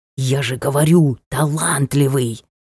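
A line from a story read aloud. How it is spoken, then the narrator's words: Loud whisper. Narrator (Russian): сказал громким шепотом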